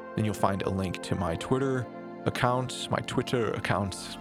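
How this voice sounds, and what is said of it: Slipping into a British accent. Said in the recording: “There's that British accent slipping out again for some reason.”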